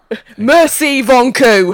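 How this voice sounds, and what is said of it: Shouted mock-French phrase. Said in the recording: “Oh, you got the good shouting. Now. That's the English way of talking foreign language, isn't it?”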